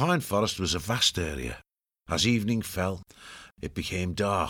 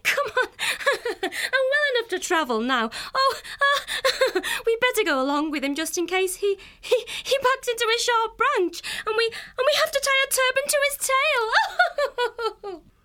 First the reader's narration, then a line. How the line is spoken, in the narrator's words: Fenner, tears of laughter rolling down both cheeks as she gasped out